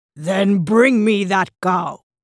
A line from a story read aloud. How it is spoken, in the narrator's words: growled Bali